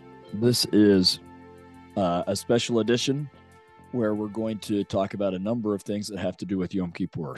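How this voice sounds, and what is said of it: Hoarse, partly lost voice. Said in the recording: “your host has lost his voice ... I am a bit hoarse today ... hoping my voice would come back, and it has come back a little bit, but not completely”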